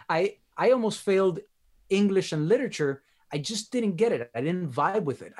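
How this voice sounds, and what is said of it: Miami accent. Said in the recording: “my accent, the Miami accent”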